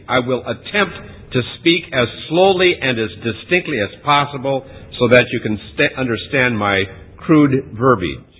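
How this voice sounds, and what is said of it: American Midwest accent. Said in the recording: “my crude, rude American accent ... I'm known to have a Midwest accent ... So I have that kind of an accent”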